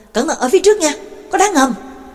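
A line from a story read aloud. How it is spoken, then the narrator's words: Shout from nearby. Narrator (Vietnamese): Trắc Mộc Cường Ba ở bên cạnh la lên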